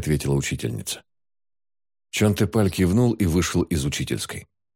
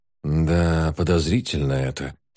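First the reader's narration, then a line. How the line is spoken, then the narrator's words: Drawling. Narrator (Russian): протянул Рюгон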